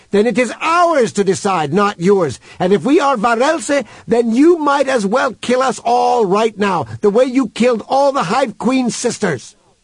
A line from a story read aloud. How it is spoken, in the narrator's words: shouted Human into the speaker's face